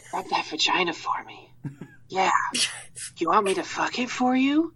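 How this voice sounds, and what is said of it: Cheesy phone-sex voice. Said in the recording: “You sound like a really, really bad phone sex.”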